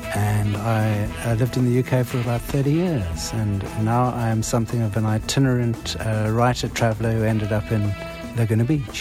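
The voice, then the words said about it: South African accent. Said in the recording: “that's where the accent is ... the South African accent ... it's one of those accents that really sticks”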